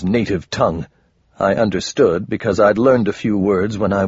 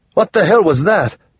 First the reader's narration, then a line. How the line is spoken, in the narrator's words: He shouted